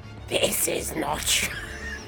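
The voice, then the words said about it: Failed fictional character voice. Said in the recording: “a failed attempt at doing an impression of the Gravemind ... the Gravemind accent”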